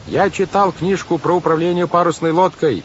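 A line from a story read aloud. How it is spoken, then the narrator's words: Yelling over a hurricane. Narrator (Russian): заорал Клаус, стараясь перекричать вой урагана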